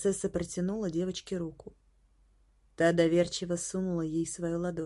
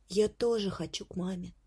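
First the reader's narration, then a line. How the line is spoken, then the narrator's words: Quiet. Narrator (Russian): тихонько сказала Горошенко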